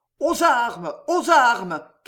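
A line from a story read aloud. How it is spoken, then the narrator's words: Crowd shouting. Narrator (French): criaient les Français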